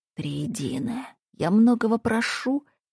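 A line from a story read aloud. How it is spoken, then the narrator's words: Muffled whisper. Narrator (Russian): приглушенным шепотом обратился он в пустоту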